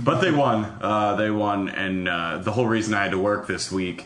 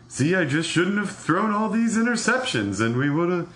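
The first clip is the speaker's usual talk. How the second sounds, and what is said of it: Imitates another person's voice. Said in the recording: “do your impression of Cam Newton for us at the end of the game? How he would talk about the end of the game? ... It sounds just like Jackie Mason.”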